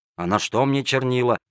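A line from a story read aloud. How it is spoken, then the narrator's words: Grumbling hapless petitioner. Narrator (Russian): ворчал незадачливый проситель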